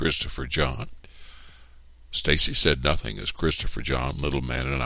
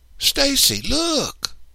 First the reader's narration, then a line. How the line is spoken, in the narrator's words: cried